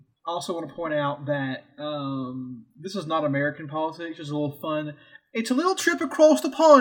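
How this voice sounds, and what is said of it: Usual voice. Nothing is said of it.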